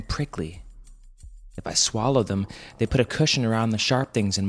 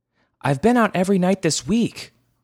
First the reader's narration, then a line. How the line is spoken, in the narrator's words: Mama shouted back